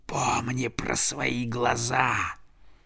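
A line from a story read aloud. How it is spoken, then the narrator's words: Hiss into the ear. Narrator (Russian): самый большой из стаи ворон, вероятно, их Хёвдинг, прошипел ему прямо в ухо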